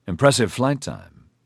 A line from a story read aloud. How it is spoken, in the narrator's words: Cheriton said dryly